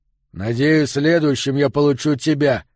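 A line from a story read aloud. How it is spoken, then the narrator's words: Growling. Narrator (Russian): прорычал Эммет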